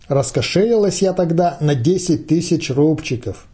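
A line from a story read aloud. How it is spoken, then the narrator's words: Plain woman's voice. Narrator (Russian): сказала женщина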